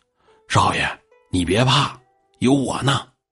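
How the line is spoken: Low hushed voice. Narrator (Chinese): 印儿这时候压低了声音就说

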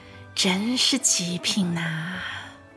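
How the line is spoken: Soft murmur to self. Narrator (Chinese): 忍不住低声的自言自语

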